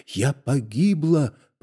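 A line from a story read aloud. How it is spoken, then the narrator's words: Breathed, barely audible whisper. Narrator (Russian): произнесла она шепотом, как бы выдохнув эти слова, и доктор скорее угадал их, чем расслышал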